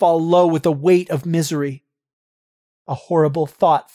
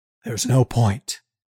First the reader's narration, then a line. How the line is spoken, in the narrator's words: he says quietly